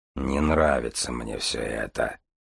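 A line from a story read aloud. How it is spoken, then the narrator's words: Grumbling. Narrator (Russian): проворчал Железовский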